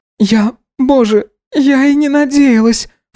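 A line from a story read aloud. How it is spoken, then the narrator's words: Sobbing. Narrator (Russian): всхлипывала она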